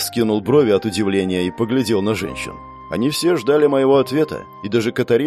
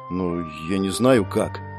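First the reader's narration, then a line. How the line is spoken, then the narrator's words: Quiet reply. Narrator (Russian): тихо произнес я в ответ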